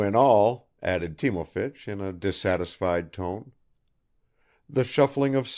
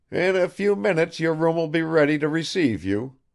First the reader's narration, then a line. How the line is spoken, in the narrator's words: he exclaimed triumphantly